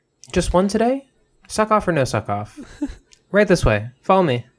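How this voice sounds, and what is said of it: Imitates a restaurant hostess voice. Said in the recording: “my impression of a hostess”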